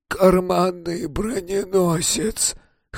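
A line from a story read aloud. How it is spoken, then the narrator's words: Hoarse, nasal voice. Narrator (Russian): хрипло сказал он, зажимая нос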